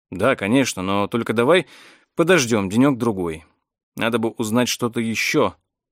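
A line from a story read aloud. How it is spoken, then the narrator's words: Sighing. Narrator (Russian): Эдвард вздохнул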